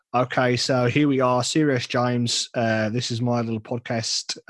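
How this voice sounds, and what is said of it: Mediocre put-on Australian accent. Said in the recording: “Let's have your Australian ... my Australian accent ... It's a strong 5.3 out of 10 ... it's terrible”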